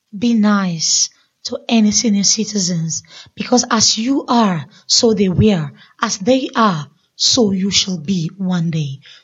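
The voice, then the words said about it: Speaks with a noticeable accent. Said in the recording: “I like your accent. ... I just like your accent.”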